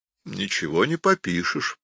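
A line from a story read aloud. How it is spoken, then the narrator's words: Sad, quiet remark. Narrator (Russian): грустно проронил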